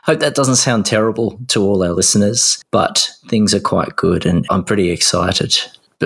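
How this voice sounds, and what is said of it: Hoarse, losing voice. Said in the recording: “I'm a little sick, mind you. I'm losing my voice a tad.”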